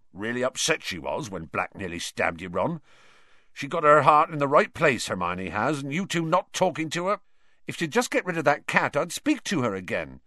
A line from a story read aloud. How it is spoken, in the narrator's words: said angrily